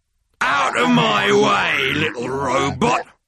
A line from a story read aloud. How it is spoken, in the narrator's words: growled the tank